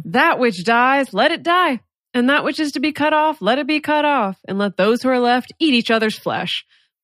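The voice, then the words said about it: Put-on down-home country accent. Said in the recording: “very down-home kind of country interpretation ... Now I've picked up the accent. ... Yeah, it's good.”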